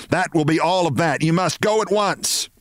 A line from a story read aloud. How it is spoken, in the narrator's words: she shouted, getting to her feet